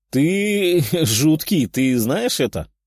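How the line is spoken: Laughing. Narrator (Russian): хохотнул ушастый

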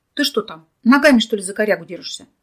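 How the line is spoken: Strained shout through clenched teeth. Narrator (Russian): крикнул он ей сквозь стиснутые от напряжения зубы

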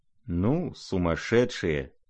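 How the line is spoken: Muttering. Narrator (Russian): пробормотала Лизавета Прокофьевна

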